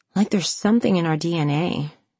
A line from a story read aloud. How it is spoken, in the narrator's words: she murmured